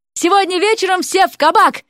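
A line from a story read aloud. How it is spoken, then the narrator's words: Parting shout. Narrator (Russian): крикнул напоследок Уилл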